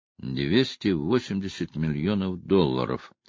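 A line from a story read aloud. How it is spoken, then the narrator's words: Whispered. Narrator (Russian): прошептал Тальбот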